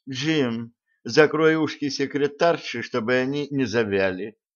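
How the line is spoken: Affectionate request. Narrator (Russian): ласково попросил Блат

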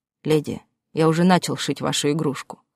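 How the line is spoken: Snorted. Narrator (Russian): хмыкнул он

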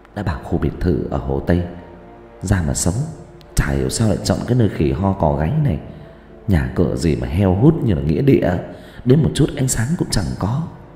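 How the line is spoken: Woman muttering. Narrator (Vietnamese): Cô ta lẩm bẩm

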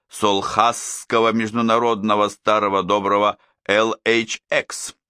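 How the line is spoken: Gloating, malicious. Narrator (Russian): продолжал Минору, злобно сияя

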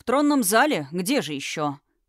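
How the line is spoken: Snorting. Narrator (Russian): хмыкнул Тхераим

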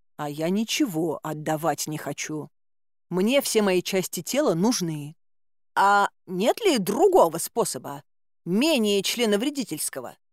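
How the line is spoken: Plain. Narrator (Russian): спросила я

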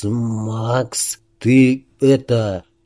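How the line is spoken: Hoarse, barely audible. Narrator (Russian): он хрипло, еле слышно произнес

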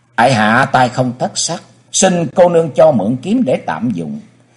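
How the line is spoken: Smiling, polite. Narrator (Vietnamese): mỉm cười rồi nói

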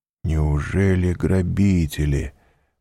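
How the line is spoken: Muttering. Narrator (Russian): пробормотал он

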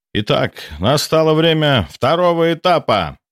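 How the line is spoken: Booming voice. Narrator (Russian): прогремел голос профессора Руденко

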